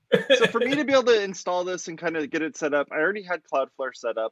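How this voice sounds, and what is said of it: Accented English. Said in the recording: “It's the weird accent.”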